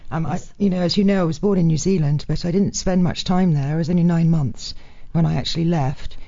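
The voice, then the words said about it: Mostly British accent. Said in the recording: “my accent is predominantly probably British, because I grew up in England.”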